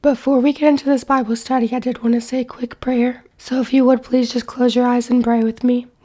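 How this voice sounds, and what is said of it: Congested voice from a cold. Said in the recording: “I have a cold, so I apologize in advance for my voice. I'm going to try my hardest to speak as clearly as I can”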